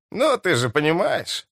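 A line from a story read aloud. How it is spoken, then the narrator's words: Snorting, flushed. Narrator (Russian): хмыкнул Меллифант, побагровев лицом почти как мистер Помрой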